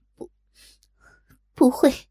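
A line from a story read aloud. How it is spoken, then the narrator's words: Weak voice, nearly sobbing. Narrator (Chinese): 黄蓉柔弱的声音几乎啜泣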